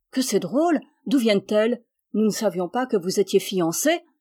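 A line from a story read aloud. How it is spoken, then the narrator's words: Surprised girls exclaiming. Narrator (French): s'écrièrent les jeunes filles avec beaucoup de curiosité et de surprise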